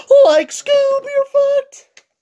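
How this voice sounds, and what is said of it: Shaggy cartoon character voice. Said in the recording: “I don't know if Cody's ever heard me do Shaggy ... I don't think that's a bad Shaggy impression”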